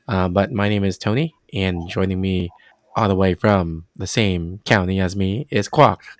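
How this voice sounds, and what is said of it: Sick, unusual-sounding voice. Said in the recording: “My voice is really weird right now because I'm still under the weather.”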